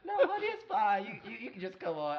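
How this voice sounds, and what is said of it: Cafeteria lunch lady accent. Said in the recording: “I love how you gave her an accent like she was a cafeteria lunch lady.”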